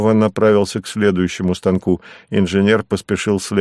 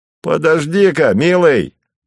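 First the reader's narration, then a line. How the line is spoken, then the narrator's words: Shouted. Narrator (Russian): прокричал Савва молодому рабочему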